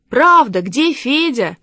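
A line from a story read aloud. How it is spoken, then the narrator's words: Children shouting together. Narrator (Russian): закричали ребята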